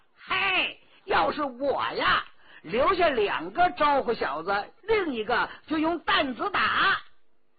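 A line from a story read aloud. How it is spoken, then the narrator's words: Loud shouting. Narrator (Chinese): 佟兆和大声地叫着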